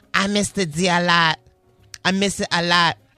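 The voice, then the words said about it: Imitates another person's voice. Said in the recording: “I'm gonna do my best to Cardi B impression.”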